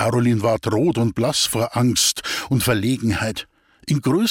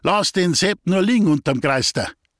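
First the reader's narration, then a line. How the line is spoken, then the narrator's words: Hunter calling. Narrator (German): ruft der Jäger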